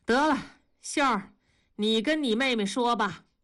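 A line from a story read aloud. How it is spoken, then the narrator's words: Dejected mother sighing. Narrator (Chinese): 母亲气馁了，叹口气说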